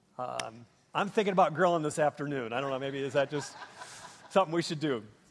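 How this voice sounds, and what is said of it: Minnesotan accent. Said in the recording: “I grew up in Minnesota. ... maybe you pick up that in my accent, I don't know, but I'm a Minnesota kid.”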